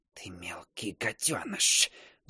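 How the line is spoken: Hissed. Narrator (Russian): зашипела Агнет

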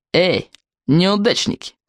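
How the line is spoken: Snide mocking call. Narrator (Russian): ехидно окликнул высокий злобный уволень

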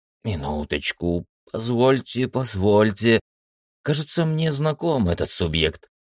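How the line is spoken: Thoughtful mutter. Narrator (Russian): задумчиво пробормотал тот

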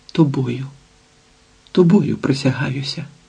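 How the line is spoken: Passionate whisper. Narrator (Ukrainian): прошепотіла гаряче

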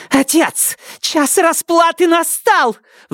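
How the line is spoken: Shrill shriek, echoing. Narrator (Russian): взвизгнула Сизин, и эхо ее слов полетело по комнате

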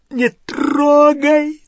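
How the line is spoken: Yelling. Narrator (Russian): заорал Гарри

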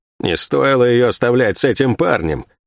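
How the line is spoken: Grumble. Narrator (Russian): проворчала Сойка

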